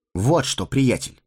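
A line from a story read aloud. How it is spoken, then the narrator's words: Stern. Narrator (Russian): строго сказал Фродо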